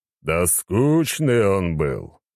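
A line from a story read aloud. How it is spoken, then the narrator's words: Displeased deep bass. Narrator (Russian): недовольно пробасил Рабадон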